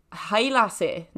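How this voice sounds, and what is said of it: Put-on Scottish accent. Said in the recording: “I'm trying to do a Scottish accent ... No, that's actually not too bad”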